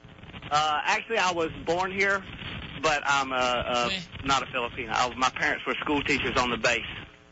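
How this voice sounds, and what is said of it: Southern US accent. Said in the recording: “This sounds kind of like a southern U.S. accent ... that's why I speak with a southern accent ... A super, you know, Britney Spears-esque”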